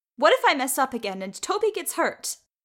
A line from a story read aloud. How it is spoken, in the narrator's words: she had yelled